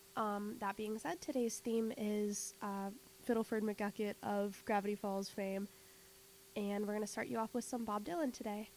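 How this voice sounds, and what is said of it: Slightly weird, sick-sounding voice. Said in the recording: “I sound a little weird ... I'm recovering from an illness, so I'll be talking a little less”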